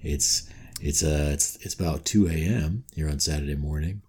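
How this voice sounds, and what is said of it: Late-night radio DJ voice. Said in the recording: “I'm going into my radio voice now... more or less the voice you would use under those circumstances”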